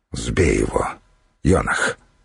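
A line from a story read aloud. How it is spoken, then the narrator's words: Low-voiced command. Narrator (Russian): вполголоса приказал Духарев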